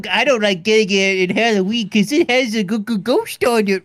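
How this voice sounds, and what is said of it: Imitates another person's voice. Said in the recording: “I don't know who this is you're doing an impression of. ... I love your Adam Sandler”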